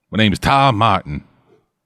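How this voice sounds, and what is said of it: Put-on accent. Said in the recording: “It's a very fun name to say with this accent.”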